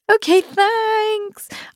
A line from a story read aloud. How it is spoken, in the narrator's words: I chirped